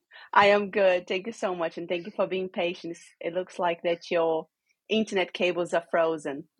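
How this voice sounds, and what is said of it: Hybrid Brazilian-Australian accent. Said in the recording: “I was expecting a full-on Aussie accent, but I've got a hybrid Brazilian Aussie, maybe a little bit of European in there as well”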